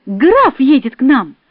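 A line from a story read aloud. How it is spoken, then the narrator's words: Shouting. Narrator (Russian): кричала я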